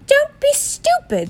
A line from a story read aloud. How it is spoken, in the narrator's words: snapped Aunt Petunia